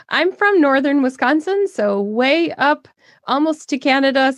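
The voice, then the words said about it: Northern Wisconsin accent. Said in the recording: “we have a little bit of an accent up here ... But I love your accent.”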